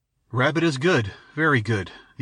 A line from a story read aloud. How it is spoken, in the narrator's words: the ancient quavered